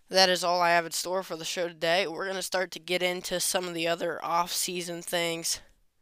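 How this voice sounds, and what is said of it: Strained, fading voice. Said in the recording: “my voice is starting to give out”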